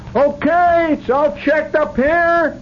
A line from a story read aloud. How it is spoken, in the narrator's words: Somebody hollered